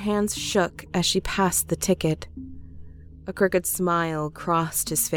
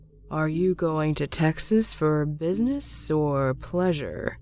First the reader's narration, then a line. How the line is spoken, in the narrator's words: he asked in a slow monotone